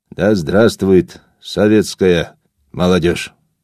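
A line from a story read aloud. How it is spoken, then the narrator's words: Abrupt hoarse shout, Georgian accent. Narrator (Russian): Сталин отрывисто выкрикнул хрипловатым голосом с сильным грузинским акцентом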